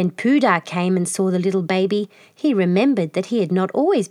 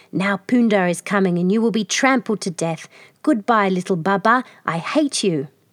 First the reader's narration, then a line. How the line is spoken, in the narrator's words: Hoodoo hissing